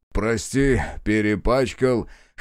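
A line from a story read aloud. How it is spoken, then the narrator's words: Chuckling. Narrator (Russian): хохотнул Перфильев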